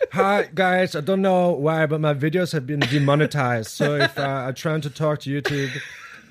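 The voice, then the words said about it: Vague put-on European accent. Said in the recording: “I got into a real weird accent. I don't even know what that was. ... That was like the Lars from what's the movie up? Heavyweights. ... You just sound like vague European guy. ... I just sound Euro like trash.”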